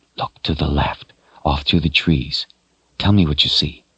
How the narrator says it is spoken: whispered in her ear

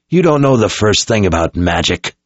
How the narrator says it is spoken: Zed snapped

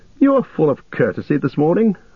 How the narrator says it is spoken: laughed Legolas

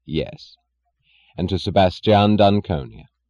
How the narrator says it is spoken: he answered firmly, with the faintly proud smile of stressing his firmness

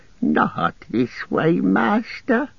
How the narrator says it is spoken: pleaded

